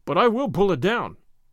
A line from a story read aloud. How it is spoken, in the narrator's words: cried Gordon